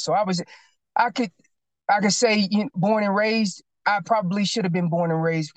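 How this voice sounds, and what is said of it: North Carolina accent. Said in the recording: “I can hear it... that accent... my North Carolina accent”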